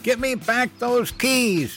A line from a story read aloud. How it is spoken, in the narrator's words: Mom screamed